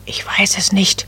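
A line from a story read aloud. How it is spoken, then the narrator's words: Whispering back. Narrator (German): flüsterte Nadelbäumchen zurück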